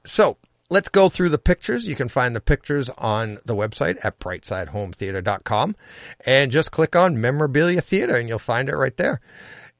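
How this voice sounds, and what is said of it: Boston accent. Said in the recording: “my Boston accent, that I'm trying to get rid of, my Boston accent”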